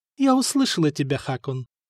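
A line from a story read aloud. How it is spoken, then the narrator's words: Soft. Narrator (Russian): мягко сказала Мартина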